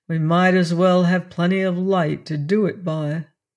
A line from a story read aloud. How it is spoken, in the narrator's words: one of the other men said gloomily